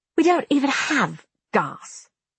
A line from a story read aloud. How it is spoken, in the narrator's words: Rafe snapped